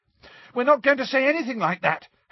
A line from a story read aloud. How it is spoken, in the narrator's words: Harry shouted